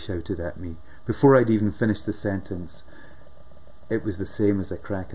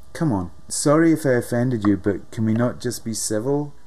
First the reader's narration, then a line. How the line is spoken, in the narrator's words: I said shakily